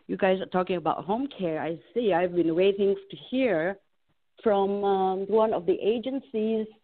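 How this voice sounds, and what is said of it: Voice with a cold, sniffling. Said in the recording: “I've got a little bit of a cold here, so if you hear a lot of sniffling, that will be me”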